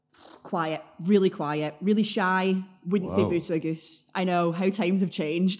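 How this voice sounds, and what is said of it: Glaswegian Scottish accent. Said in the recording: “you can tell by your accent, you're not a Manchester native ... keep the Glaswegian accent ... quite threatening when I want it to be ... you haven't lost the accent”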